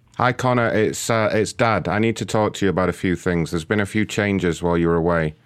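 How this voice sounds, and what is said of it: Put-on British accent. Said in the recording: “I've decided to use a British accent from now on. I just think it makes me sound more professional”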